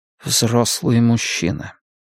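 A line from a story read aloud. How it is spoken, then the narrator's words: Quiet. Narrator (Russian): тихо сказал Риттер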